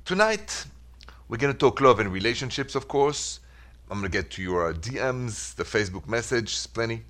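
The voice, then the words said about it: Thick French accent. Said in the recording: “my accent is so thick anyway, I can't hide it ... this thick French accent of mine”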